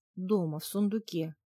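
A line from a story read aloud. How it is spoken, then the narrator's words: Mumbled. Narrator (Russian): промямлила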